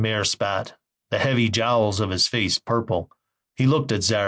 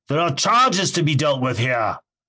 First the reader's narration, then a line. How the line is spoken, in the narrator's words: shouted above the protest of the council